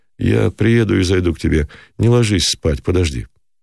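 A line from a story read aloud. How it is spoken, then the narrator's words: Overly calm. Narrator (Russian): добавил излишне спокойно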